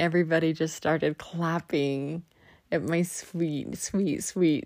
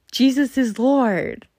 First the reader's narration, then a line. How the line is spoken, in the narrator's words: he yells to the whole congregation